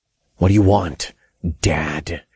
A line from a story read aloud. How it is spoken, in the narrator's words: I growled